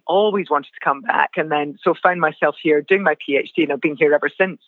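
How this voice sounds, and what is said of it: Non-Australian accent. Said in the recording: “despite the way my accent sounds, I have now been here nineteen years.”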